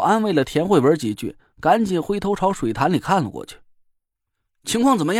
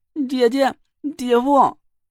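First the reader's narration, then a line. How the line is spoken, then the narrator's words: Tearful voice from water. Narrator (Chinese): 唐果儿带着哭腔的声音就从水潭里传了过来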